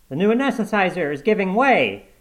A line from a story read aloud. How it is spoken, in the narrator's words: shouted an intern